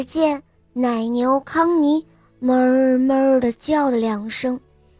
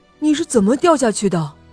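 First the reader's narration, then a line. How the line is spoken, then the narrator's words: Breathless. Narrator (Chinese): 弗瑞德喘了口气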